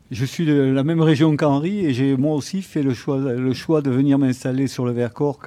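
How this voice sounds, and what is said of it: Non-local French regional accent. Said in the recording (French): “à mon accent, vous avez compris que je ne suis pas Vertaco de naissance”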